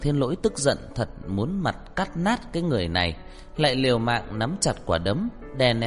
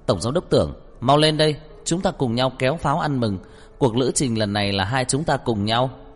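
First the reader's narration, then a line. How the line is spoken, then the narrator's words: Loud, excited, suppressing laughter. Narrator (Vietnamese): Trang Hạo Nhiên nhịn cười, lớn tiếng kích động gọi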